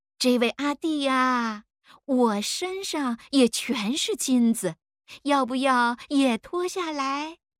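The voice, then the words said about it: Soft girlish regional accent. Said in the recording (Chinese): “用软妹的东兴 口音说”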